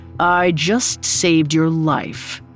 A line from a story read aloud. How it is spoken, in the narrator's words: he said, his voice thick with disdain